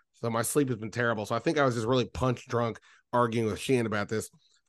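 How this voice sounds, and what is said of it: Sick-sounding voice. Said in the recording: “I've been sick all week. You can hear it in my voice.”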